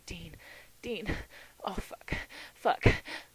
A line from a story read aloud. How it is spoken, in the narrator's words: Sam's whimpering